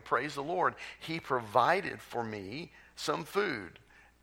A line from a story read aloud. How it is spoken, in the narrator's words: she cried like she did every morning